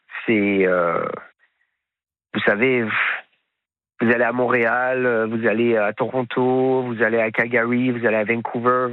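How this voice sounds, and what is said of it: Slight Québécois French accent. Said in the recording (French): “vous avez ramené un petit accent québécois”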